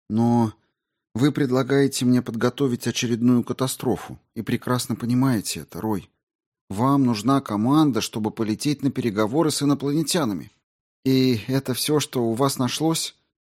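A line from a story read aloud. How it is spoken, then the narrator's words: Sighing. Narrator (Russian): МакАлистер вздохнул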